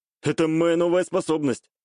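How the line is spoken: Smug snort. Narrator (Russian): хмыкнул я

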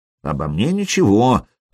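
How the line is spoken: Grumble. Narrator (Russian): проворчал Хузарин

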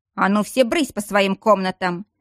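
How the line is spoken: Bark. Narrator (Russian): рявкнула леди Киара

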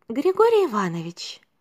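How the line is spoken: Quiet. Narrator (Russian): тихо произнесла она

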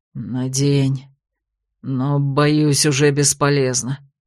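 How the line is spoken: Dull, lifeless mutter. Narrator (Russian): потухшим голосом пробормотал Дроу

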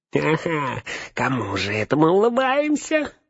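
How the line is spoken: Nasal twang. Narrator (Russian): прогнусавил он

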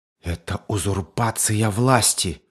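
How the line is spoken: Fearful breathless exhale. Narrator (Russian): выдохнул Фатно, бледнее от одной только мысли о том, что произойдет дальше

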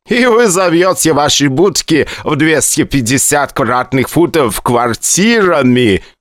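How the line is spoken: Loud laughter. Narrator (Russian): Громко рассмеялся Грей

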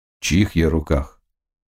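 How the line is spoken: Clear voice. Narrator (Russian): Горилка, очевидно, помогла ему, он спросил чистым голосом

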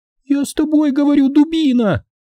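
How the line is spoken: Woman screaming in face. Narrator (Russian): завопила мне в лицо блондинка

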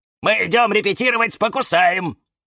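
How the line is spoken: Several voices shouting. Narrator (Russian): закричали Фикус и Вениамин и Валентин

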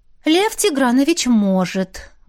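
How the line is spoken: Sigh. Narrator (Russian): вздохнула Машка

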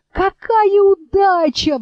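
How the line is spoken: Delighted exclamation. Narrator (Russian): воскликнула елочка

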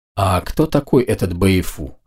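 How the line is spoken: Whisper. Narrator (Russian): шепнула Ника

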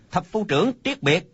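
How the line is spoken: Soldier's call. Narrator (Vietnamese): Quân sĩ kêu lên

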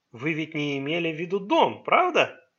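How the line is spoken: Cheerful question. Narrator (Russian): весело переспросил Май

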